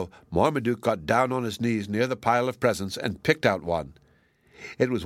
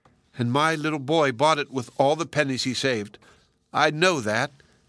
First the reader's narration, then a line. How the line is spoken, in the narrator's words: cried in delight